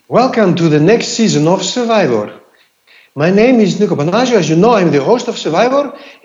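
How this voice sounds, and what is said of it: Put-on Greek accent. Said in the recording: “you're very good with accents ... how you would open the Survivor episode when it starts again in your Greek accent”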